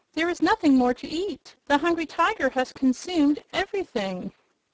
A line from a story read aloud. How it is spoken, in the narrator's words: Jellia Jamb exclaimed